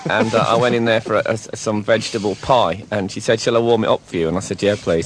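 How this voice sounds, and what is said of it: English accent. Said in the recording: “what is this accent we're hearing? ... I'm from England.”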